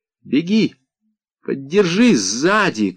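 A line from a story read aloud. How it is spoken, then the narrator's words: Shouting. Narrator (Russian): крикнула мне Джамиля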